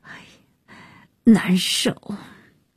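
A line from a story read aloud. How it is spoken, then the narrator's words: Breathless apologetic complaint. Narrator (Chinese): 安叶走几步就得扶住楼梯喘，抱歉地诉苦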